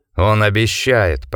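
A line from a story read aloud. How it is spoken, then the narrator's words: Growled. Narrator (Russian): прорычал капитан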